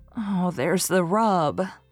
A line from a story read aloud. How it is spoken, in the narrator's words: sighed Anne